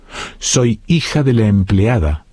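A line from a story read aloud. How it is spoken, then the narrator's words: Plain. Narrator (Spanish): dijo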